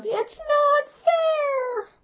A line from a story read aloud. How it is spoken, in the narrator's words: screams of